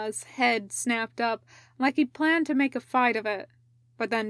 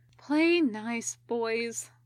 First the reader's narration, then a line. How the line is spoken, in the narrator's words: she said wearily